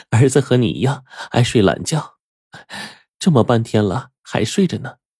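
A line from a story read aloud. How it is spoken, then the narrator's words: Laughing. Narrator (Chinese): 金老板的妻子就向丈夫笑道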